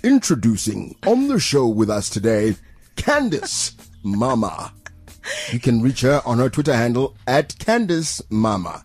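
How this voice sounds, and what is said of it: TV show presenter announcing voice. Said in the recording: “do your top billing voice? ... your top billing voice”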